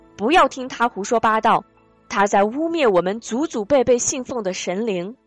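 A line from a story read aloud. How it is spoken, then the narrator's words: Shout. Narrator (Chinese): 族人中有人在喊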